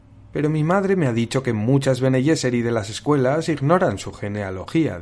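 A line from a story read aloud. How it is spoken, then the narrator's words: Plain. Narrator (Spanish): dijo Paul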